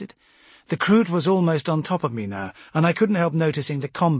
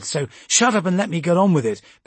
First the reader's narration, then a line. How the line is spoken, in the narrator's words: Amberlee snapped